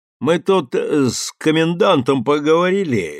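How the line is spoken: Lazy drawl. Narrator (Russian): лениво цедил слова Никитин

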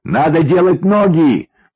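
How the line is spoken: Shouting into ear. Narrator (Russian): в самое ухо кричал ему Максим

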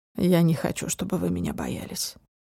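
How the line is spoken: Quiet serious. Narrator (Russian): произнес он тихо и серьезно

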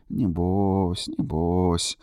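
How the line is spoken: Midwife muttering. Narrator (Russian): бормотала акушерка

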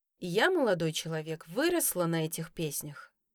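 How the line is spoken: Sighing. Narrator (Russian): вздохнула я

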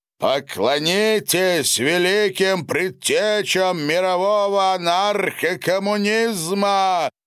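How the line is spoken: Loud. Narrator (Russian): громко произнес Мармалоновый

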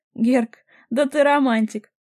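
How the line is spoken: Loud laughter. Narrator (Russian): захохотал Сергей

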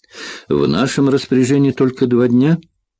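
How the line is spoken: Dejected question. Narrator (Russian): упавшим голосом поинтересовалась Элис

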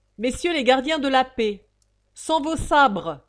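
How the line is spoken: Bailiff shouting. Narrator (French): criait l'huissier

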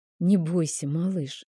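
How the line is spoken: Whispered. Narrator (Russian): прошептала я

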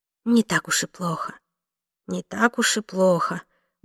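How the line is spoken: Muttering to herself. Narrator (Russian): бормотала себе под нос

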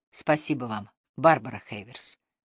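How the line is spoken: Quiet. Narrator (Russian): тихо произнес

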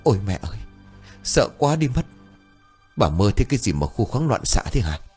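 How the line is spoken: Breathless faint old wo. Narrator (Vietnamese): Bà Xuyên chợt tỉnh từ trong giấc mơ, thở hổn hển thều thào

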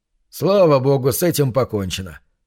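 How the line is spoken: Relieved sigh. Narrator (Russian): Вздохнул он с облегчением

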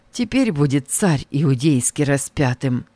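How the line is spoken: Quiet. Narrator (Russian): И тихо Варавва сказал

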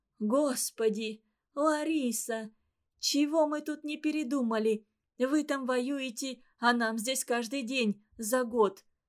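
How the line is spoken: Mother sobbing. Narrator (Russian): прерывающимся от рыданий голосом говорила мать

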